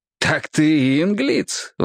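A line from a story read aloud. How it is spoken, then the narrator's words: Exclaiming. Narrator (Russian): воскликнул Зеви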